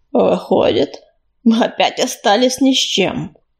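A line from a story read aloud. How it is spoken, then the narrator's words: Gloomy. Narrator (Russian): мрачно подытожил Чернозвезд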